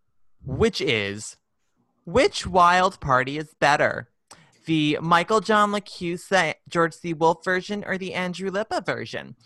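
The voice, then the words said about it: Affected chat room girl voice. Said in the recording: “Is that your chat room girl voice? ... That's my chat room girl voice. ... my chat room gay voice ... My little Betsy voice.”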